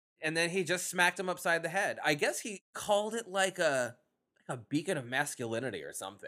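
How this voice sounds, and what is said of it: Usual voice. Nothing is said of it.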